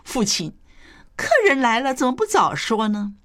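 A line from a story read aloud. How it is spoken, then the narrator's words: Hearty laughter. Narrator (Chinese): 第三位 便哈哈大笑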